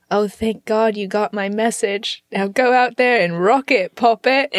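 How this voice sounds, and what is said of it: Put-on English accent. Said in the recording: “It's that English accent for me.”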